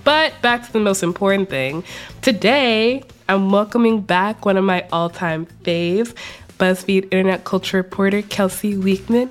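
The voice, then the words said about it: Congested, sick-sounding voice. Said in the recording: “I have once again fallen ill, and I will probably sound like shit ... if I sound congested, you're hearing correctly”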